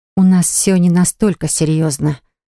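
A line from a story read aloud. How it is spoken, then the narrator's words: Astonished mumble. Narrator (Russian): пробормотала я, пораженная столь ответственным подходом к нашему фиктивному браку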